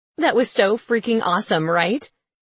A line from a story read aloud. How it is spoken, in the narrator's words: says Jennifer